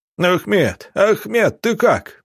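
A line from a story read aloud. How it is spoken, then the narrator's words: Yelling. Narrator (Russian): завопил Михаил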